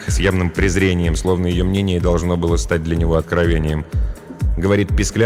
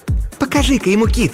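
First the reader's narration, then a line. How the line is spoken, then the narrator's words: Exclaiming. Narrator (Russian): воскликнула блондинка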